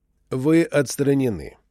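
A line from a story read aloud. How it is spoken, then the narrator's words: Calm repetition. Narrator (Russian): спокойно повторил Лондон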